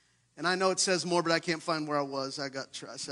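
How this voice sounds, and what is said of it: Usual voice. Nothing is said of it.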